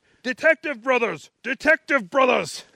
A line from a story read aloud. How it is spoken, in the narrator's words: someone yelling